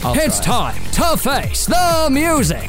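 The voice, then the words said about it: Imitates the X Factor announcer voice. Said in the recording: “my X Factor Man impression”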